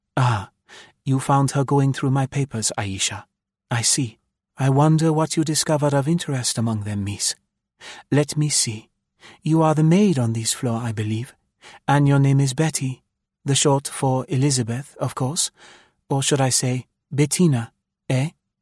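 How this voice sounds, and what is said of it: English with light Spanish accent. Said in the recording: “She spoke beautiful English, with here and there a pretty Spanish accent.”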